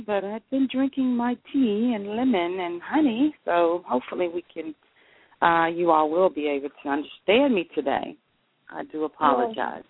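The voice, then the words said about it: Unwell, rough-sounding voice. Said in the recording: “just a little under the weather. My voice is not what it is normally”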